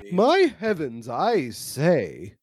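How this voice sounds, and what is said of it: Old-fashioned genteel society lady voice. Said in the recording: “She's doing her best Margaret Dumont impression from the Marx Brothers.”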